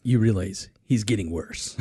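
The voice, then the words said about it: Imitates another person's voice. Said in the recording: “my Chick impression. Not very good”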